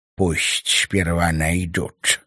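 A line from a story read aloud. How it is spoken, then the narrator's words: Defiant hiss. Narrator (Russian): с вызовом прошипел Ташес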